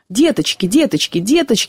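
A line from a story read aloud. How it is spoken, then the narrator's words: Rapid muttering. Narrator (Russian): бормотал он быстро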